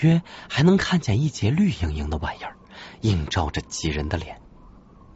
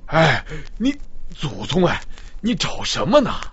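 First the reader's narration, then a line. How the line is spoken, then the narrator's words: Panting. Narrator (Chinese): 老鱼喘气说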